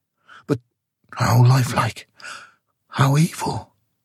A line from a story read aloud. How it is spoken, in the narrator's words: she whispered, drawing close to him